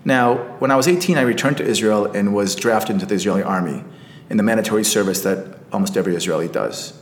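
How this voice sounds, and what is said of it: American accent. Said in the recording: “I moved to Washington, D.C. at the age of 10 ... hence my American accent.”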